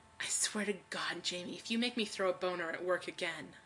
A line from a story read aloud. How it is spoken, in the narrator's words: he takes a deep breath and hisses